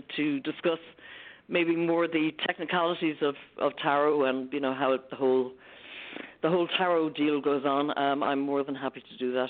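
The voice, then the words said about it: Irish accent. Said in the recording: “my lovely Irish accent”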